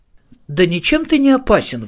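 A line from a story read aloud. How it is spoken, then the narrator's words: Indignant exclamation. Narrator (Russian): возмущенно воскликнула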